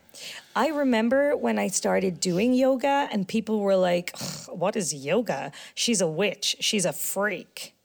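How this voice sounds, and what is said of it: Put-on American accent. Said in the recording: “your American accent”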